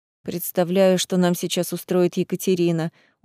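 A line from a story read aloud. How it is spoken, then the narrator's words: Tired smiling voice. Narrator (Russian): устало улыбнулся Вадим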